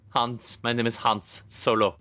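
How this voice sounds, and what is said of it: Bad put-on German accent. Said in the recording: “ever so slight German lilt ... a bad German accent”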